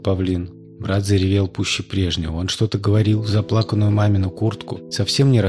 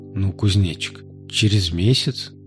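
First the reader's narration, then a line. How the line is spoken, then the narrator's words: Uncertain. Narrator (Russian): неуверенно сказала она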